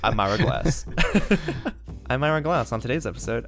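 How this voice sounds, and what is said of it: Impression of Ira Glass. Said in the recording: “I can't do his voice. He just has a really unique, cool voice.”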